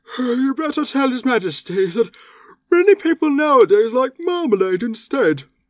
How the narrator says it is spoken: The Alderney said sleepily

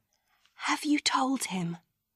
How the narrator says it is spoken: say in a quiet voice to his father

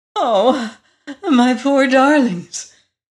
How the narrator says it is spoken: cried the queen with a sob of anguish

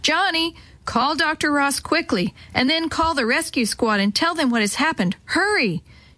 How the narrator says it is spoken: Mother shouted

